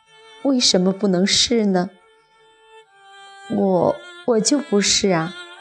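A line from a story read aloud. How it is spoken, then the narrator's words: Old man, laughing. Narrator (Chinese): 老人一笑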